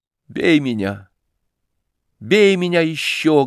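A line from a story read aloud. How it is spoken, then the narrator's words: Tearful. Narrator (Russian): говорил я сквозь слезы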